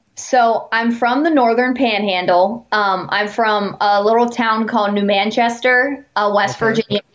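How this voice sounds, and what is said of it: Neutral newscaster-style accent. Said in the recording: “you have that news, you have the news. Uh, what do they call that inflection? ... you've got that ambiguous accent.”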